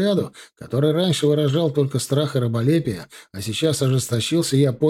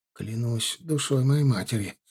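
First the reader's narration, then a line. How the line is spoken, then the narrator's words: Muttered under breath. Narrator (Russian): пробормотал он вполголоса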